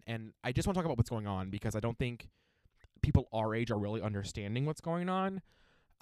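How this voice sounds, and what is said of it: Breathless, out of breath speech. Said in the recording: “I don't know why I'm out of breath.”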